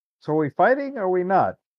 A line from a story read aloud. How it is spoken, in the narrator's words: I yelled to my sister